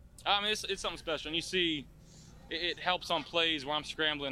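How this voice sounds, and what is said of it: Accent like talking with dip in. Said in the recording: “Copenhagen wintergreen dipping accent”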